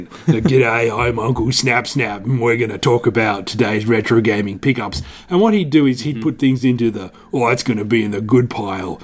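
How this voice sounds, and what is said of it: Awkward put-on Australian accent. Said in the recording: “I just used a really awkward Australian accent.”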